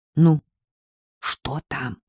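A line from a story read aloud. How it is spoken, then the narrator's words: Whispered question. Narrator (Russian): спросила шепотом Агнесса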